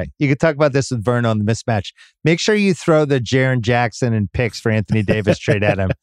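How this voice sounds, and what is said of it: Usual voice. Nothing is said of it.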